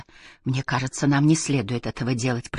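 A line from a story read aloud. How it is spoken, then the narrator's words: Whisper. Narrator (Russian): прошептала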